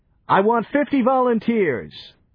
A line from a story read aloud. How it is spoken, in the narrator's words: Into the din, Johnny shouted